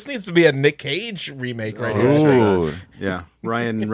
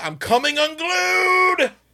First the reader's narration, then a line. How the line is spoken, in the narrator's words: he yelled